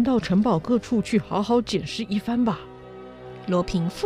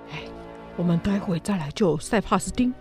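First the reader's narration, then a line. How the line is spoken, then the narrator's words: Low voice. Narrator (Chinese): 检察官低声地说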